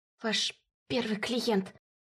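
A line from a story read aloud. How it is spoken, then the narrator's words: Hiss. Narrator (Russian): прошипел Тлев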